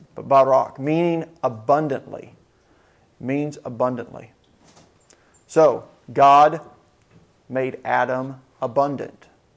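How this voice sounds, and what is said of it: American accent. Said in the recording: “Probably got quite the American accent to it.”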